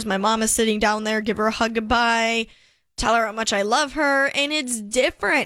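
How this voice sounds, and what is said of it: Emotional, choked-up voice. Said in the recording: “getting choked up”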